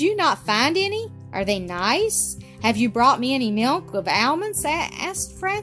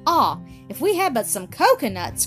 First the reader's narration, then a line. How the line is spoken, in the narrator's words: cried Ernest